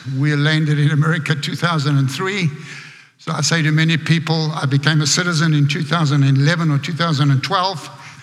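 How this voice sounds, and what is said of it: South African accent. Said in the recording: “I'm South African, as you can hear by my accent.”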